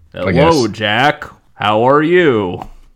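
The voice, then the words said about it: TV announcer character voice. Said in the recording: “I'm stuck still doing the voice... I'm the Nickelodeon voice from 12 years ago... The voice during the credits that like this is supposed to be him doing the coming up next.”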